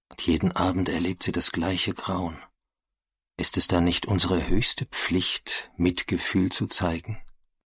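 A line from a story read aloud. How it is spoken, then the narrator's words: Soft voice. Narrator (German): sagt er leise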